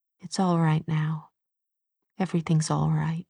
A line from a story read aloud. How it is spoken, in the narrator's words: she said, so softly that she hoped Charlotte couldn't hear her